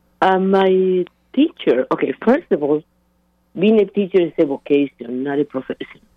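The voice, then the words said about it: Voice sounds unwell, affected. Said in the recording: “I apologize for my voice. I'm just getting over COVID.”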